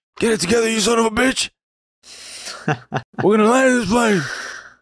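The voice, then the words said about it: Good Buck impression. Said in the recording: “That's actually a pretty good Buck impression.”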